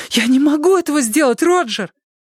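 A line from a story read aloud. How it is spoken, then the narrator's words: Shouted. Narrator (Russian): Она испуганно взглянула на меня, крикнула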